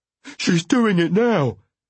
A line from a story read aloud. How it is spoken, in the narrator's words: wailed